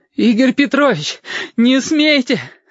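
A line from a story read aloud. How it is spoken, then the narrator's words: Gurgling exhale. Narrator (Russian): С каким-то бульканьем выдохнул Сашка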